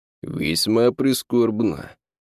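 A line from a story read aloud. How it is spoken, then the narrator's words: Feigned sigh. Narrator (Russian): не менее притворно вздохнул лорд Дарнем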